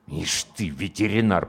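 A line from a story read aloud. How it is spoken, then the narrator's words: Muttered through teeth. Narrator (Russian): процедил комбат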